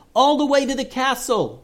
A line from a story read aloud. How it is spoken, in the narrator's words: yelled Joseph